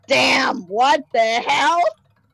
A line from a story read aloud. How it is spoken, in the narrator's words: I yelled